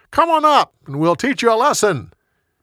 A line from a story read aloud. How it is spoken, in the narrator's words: They yelled down to Jonathan